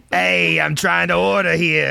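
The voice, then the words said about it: Aggressive New York/New Jersey accent. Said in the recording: “that voice is the sign of aggression... kind of a New Yorker, New Jersey accent”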